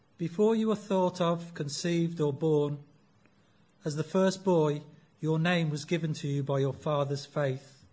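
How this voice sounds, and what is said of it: Coventry English accent. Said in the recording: “I'm not very well ... my Coventry accent”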